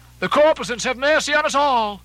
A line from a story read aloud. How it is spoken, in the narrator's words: shifting his tone, he cried